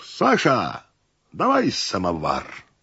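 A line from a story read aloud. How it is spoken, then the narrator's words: Host's cheerful booming call. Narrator (Russian): Хихикнул хозяин и весело грянул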